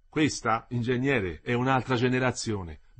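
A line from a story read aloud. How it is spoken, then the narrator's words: Plain. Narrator (Italian): disse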